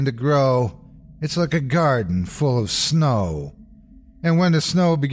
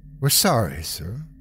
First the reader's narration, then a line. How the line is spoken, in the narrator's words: she said softly